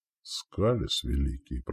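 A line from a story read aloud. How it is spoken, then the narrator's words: Whisper. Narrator (Russian): прошептал Волейбор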